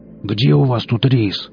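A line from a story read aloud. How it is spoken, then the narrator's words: Menacing, mouth full. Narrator (Russian): что-то жуя, и грозно глянул из-под бровей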